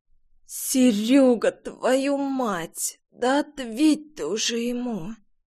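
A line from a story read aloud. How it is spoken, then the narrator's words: Hoarse parched wheeze. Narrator (Russian): Пересохшими от сушняка губами просипела я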